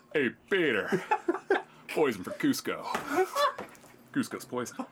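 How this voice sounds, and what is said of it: Good Patrick Warburton impression. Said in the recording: “That's pretty good, man. That's a good Patrick Warburton.”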